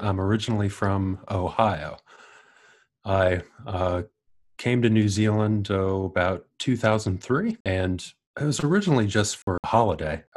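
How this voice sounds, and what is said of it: American accent. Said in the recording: “do you have an American accent? ... I do have an American accent.”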